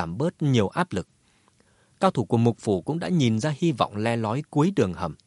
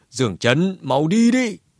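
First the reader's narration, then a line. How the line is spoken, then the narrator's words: Roaring. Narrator (Vietnamese): Lão cửu gầm lên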